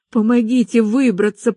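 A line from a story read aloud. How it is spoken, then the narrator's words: Wheezed. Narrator (Russian): прохрипела я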